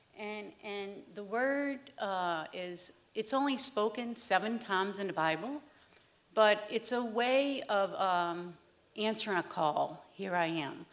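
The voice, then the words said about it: New Orleans accent. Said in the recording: “I have a New Orleans accent.”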